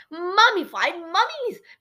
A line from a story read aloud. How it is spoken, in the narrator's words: Geronimo shrieked